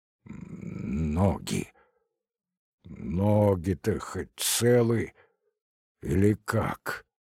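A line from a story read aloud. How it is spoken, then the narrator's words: Muffled, dreading question. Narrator (Russian): глухо спросил, уже готовый в душе ко всему самому худшему, но ни с чем не смирившийся Звягинцев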